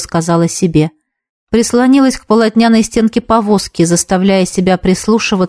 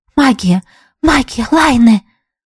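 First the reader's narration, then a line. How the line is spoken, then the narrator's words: Whisper. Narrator (Russian): прошептала подруга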